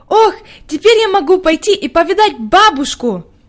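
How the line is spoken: Joyful. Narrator (Russian): радостно проговорила Хайди

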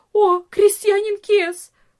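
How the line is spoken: Servant's cry. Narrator (Russian): вскрикнула одна из служанок

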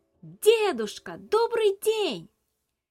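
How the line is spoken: Shouting as loud as possible. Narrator (Russian): Набрав воздуха в легкие и собравшись силой, Илья крикнул так громко, как только мог

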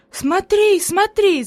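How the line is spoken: Enthusiastic shout. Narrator (Russian): закричала Хайди с энтузиазмом

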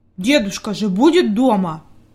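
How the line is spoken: Angry mutter. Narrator (Russian): буркнул Питер сердито

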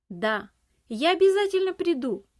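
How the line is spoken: Shout while running. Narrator (Russian): Уже на бегу крикнул он

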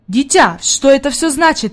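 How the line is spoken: Exclaiming man. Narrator (Russian): воскликнул господин Сесман

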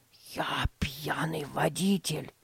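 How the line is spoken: Secretive whisper. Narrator (Russian): прошептал он, чтобы не услышали родители

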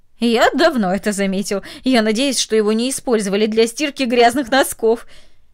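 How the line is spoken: Laughing speech. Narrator (Russian): Ее сосед засмеялся и сказал

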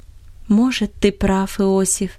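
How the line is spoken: Affectionate voice. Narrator (Russian): обратилась ласковым голосом

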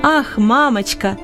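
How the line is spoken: Shouting. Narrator (Russian): кричал он

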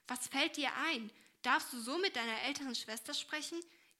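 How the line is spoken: Stern calling. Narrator (German): rief diese ernst

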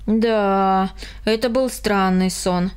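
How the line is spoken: Sigh. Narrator (Russian): вздохнул Карл

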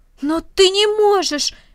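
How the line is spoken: Exclaiming. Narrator (Russian): воскликнул Рома

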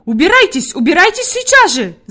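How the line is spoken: Shouted. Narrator (Russian): закричала Фрейлин Наттермайер

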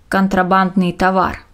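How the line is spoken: Dry remark. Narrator (Russian): сухо заметил лейтенант

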